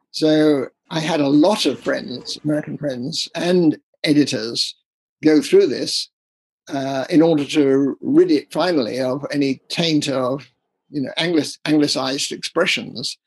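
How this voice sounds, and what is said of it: English accent. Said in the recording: “as you can hear, I have an English accent.”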